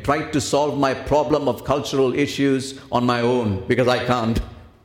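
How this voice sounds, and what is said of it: Speaker's own accent. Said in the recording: “my accent”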